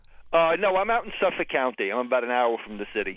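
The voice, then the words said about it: New York accent. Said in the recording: “That's my New York accent.”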